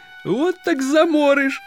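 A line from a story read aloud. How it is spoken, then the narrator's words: Squeaky insolent voice. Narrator (Russian): пискнул ничтожный наглец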